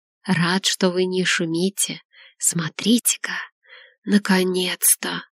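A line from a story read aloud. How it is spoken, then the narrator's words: Smiling whisper. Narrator (Russian): прошептал Артур, улыбаясь сестренке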